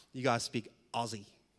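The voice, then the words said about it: American accent. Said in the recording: “I think I said that in American accent,”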